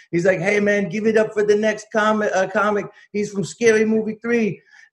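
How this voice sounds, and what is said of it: Bad exaggerated Hispanic accent. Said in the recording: “This is my bad Hispanic racist accent.”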